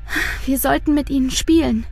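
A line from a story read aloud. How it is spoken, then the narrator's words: Sighing. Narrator (German): seufzt Luise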